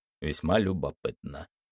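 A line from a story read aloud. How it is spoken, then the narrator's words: Muttering. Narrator (Russian): пробормотал мистер Карлайл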